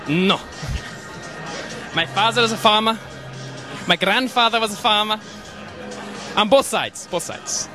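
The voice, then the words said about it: Strong European accent. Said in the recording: “With a crazy accent as well ... So where are you from that gives you that accent? ... Europe.”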